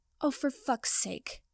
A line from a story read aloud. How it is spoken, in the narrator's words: Potter grumbled